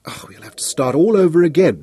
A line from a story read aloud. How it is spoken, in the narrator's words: Nicholas groaned